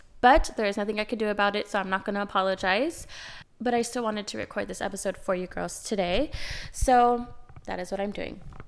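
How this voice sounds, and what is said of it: Nasal, raspy voice from cold. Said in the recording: “I am currently sick, I'm fighting a cold, so if I sound a little nasally or raspy, that is why”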